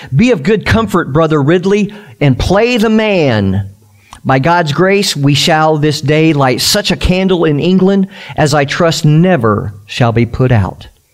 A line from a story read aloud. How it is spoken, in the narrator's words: He called out as the flames were lit